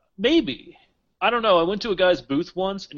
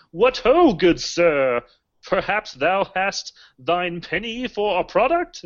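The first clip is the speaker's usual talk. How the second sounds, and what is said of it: Over-the-top old English accent. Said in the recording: “he spoke in a ridiculous, over-the-top English, old English accent”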